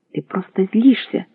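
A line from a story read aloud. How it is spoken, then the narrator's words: Shouting. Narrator (Russian): кричала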